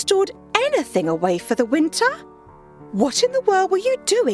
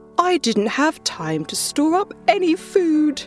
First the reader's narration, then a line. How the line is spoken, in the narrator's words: whined the grasshopper